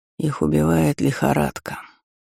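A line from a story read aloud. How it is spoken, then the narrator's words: Quiet speech. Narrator (Russian): негромко сказал Бенедикт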